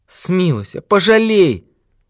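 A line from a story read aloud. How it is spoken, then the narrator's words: Old man moaning. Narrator (Russian): стонал старик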